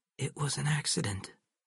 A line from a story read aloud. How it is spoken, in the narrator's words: he whispered